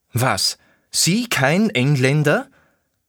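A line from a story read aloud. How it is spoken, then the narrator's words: Near-shrieking voice. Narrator (German): fast kreischend klang seine Stimme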